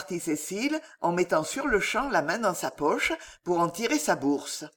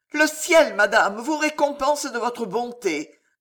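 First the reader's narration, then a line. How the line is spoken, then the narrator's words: Woman exclaiming, more confident. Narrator (French): s'écria la femme d'un ton plus assuré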